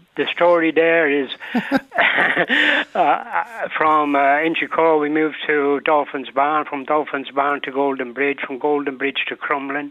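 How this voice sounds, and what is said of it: Slight Mancunian accent. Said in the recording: “I've got a bit of a Mancunian accent ... hence this accent”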